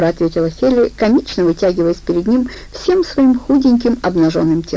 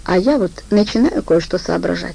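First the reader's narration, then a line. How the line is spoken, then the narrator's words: Quiet reply. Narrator (Russian): тихо ответил Бобер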